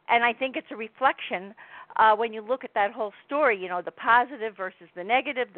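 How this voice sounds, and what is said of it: New Jersey accent. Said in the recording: “you have the cutest little accent ... how does she sound like one of us ... sounding like a New Jersey person”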